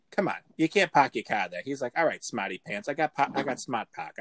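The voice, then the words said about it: Put-on Boston accent. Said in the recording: “I think the Boston accent you should get down like real quick”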